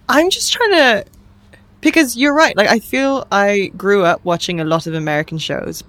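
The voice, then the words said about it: British accent, careful enunciation. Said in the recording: “obviously I've retained a pretty significant Britishness ... I've been asked if I'm Australian before, based on my accent. I've been asked by Irish people whether I'm Irish. ... I hear it. ... Except for when I say things like 30. ... It's because it's the T's. ... Enunciation.”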